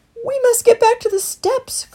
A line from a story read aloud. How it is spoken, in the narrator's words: cried Christopher urgently